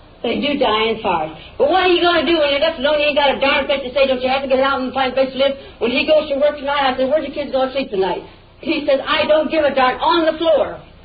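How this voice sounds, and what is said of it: Yelling, raised angry voice. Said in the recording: “I don't see any reason why you're yelling at me. ... I don't see why you're yelling at me.”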